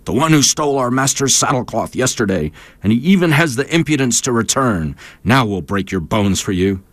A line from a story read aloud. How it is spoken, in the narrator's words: started to shout